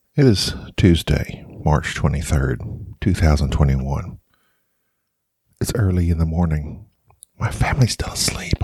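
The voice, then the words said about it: Whispering. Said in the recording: “I'm having to whisper this. Sorry if that's irritating.”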